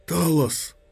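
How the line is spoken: Whisper, then shout. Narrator (Russian): прошептал Рувен, и во второй раз имя сорвалось с его губ криком

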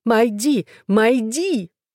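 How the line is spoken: Highly excited shouting. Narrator (Russian): в крайнем возбуждении она кричала

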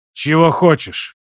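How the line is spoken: Weary question. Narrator (Russian): устало спросил Базиль

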